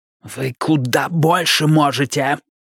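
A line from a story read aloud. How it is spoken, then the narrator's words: Hissed. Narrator (Russian): прошипел Бидвилл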